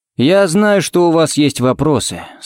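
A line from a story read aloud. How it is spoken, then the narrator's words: Muffled dull voice. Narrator (Russian): сказал он глухо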